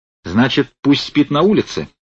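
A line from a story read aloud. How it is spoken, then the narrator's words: Angry question. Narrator (Russian): злобно спросил Корнеев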